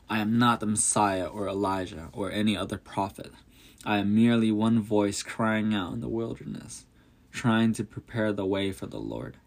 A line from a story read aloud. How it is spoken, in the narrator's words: said